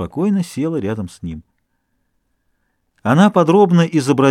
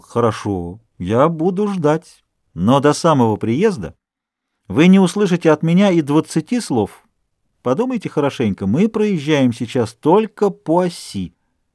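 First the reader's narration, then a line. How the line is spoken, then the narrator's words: Calm and cheerful. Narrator (Russian): к нему снова вернулось его хладнокровие, и он весело сказал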